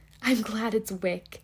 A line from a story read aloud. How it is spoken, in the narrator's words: she cried out in her whisper